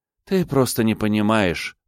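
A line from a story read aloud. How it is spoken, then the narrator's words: Sigh. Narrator (Russian): вздохнула она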